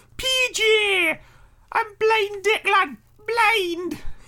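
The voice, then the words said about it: Put-on child Geordie accent. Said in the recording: “I can only do child Geordie. ... I can't do an adult Geordie. ... Hit me with someone from Biker Grove. ... Excellent. Well done.”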